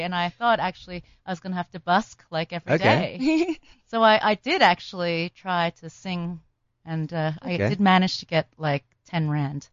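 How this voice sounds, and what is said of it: Chinese American accent. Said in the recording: “your Chinese, American accent”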